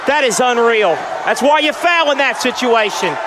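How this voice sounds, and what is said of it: Yelling, agitated. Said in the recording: “Sounds like he's yelling at the coach, doesn't it?”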